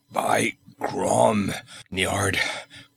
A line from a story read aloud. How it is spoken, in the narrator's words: gasped he